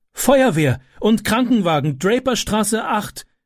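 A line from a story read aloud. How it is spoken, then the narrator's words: Calling out. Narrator (German): rief sie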